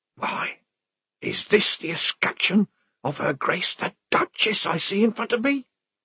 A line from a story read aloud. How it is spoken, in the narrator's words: said the whisperer